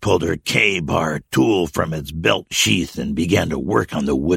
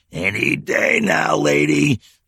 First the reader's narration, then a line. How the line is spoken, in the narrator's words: the old man growled